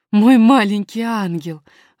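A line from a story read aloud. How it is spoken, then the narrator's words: Exclaiming. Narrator (Russian): воскликнула няня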